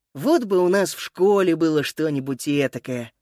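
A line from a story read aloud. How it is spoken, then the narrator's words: Sighing. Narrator (Russian): вздохнул Макс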